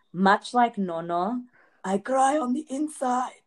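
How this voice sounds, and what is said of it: Imitates another person's voice. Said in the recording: “That was good. That was a good impression. ... That was such a good impression.”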